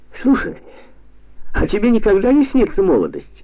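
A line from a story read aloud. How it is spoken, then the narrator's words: Cheerful question. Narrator (Russian): бодро спросил Георгий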